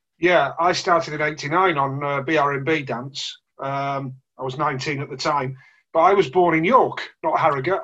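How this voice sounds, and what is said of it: Yorkshire accent. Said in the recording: “you are very much, from your accent, a man of Yorkshire”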